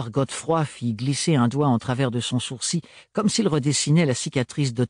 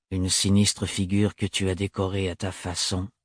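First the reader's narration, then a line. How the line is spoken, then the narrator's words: Flat voice. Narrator (French): rappela Thorne, d'une voix plate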